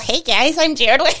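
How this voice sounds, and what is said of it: Squeaky voice impression. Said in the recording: “He's got like a wee squeaky voice. ... That's probably a really bad impression”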